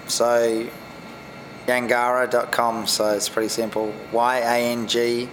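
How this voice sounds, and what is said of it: Strong accent, hard to understand. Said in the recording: “excuse my accent, it's probably need a translator.”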